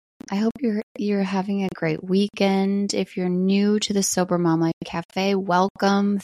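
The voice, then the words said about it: Low, just-woken morning voice. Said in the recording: “it's the first time I've talked this morning. My voice sounds a little low.”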